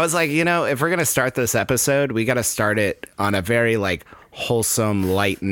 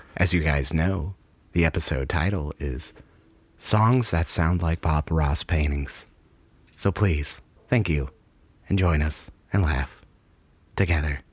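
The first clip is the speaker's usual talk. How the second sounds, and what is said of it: Soft, soothing ASMR-style radio voice. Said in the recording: “a good impression ... let me get down on some like ASMR bullshit here ... You just sounded like every NPR program that's ever been in existence”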